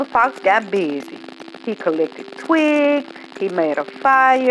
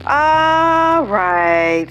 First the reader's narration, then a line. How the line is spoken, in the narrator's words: sighed the piglet